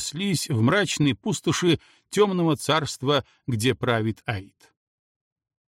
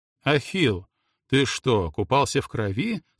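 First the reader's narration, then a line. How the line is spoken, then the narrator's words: Plain. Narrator (Russian): спросил верховный царь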